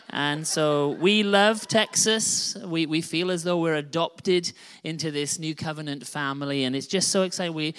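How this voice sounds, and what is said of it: Non-rhotic non-Texan accent. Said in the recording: “I don't pronounce the R just as much as you guys do ... excuse us for our accent. We're not from around here”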